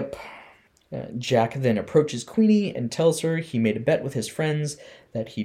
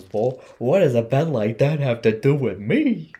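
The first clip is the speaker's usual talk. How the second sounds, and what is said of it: Imitates a character's naive voice. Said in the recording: “That was a really good imitation of her ... in that moment.”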